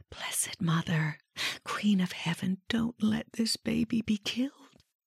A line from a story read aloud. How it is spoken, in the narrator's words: Mira whispered